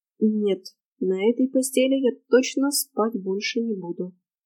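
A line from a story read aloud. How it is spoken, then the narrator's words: Gloomy sigh in ear. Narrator (Russian): уныло вздохнул мне на ухо Фрей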